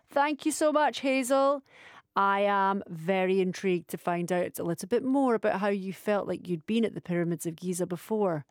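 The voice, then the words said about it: Scottish accent, soft dulcet tones. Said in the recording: “listening to your dulcet tones. It takes a lot to beat a Scottish accent”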